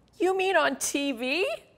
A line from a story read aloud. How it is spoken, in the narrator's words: Freddie asked in a shaky voice